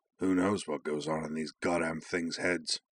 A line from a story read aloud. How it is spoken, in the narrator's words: Saeed replied gruffly